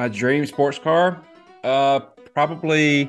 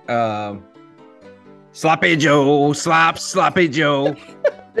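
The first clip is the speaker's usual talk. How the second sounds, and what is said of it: Imitates another person's voice. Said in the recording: “do an Adam Sandler impression.”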